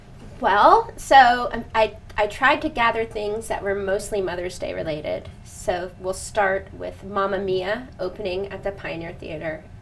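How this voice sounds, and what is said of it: Voice rough and stuffy. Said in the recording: “I have a cold, so please forgive my voice”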